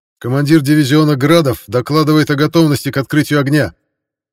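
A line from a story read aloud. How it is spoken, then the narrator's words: Loud. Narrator (Russian): Громко произнес связист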